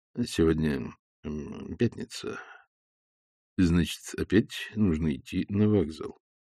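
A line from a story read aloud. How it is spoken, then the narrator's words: Quiet. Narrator (Russian): негромко сказал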